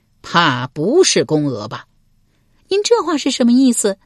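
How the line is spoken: Cold sneer. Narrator (Chinese): 鲁桓公冷笑一声道

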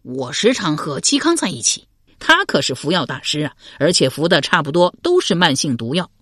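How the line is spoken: Laughing. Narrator (Chinese): 刘玲笑道

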